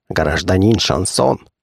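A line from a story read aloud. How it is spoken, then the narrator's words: Old man whispering. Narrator (Russian): шепнул старичок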